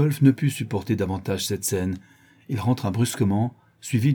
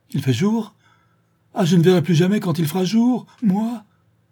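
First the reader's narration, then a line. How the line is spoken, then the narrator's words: Cry. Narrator (French): s'écria le maître d'école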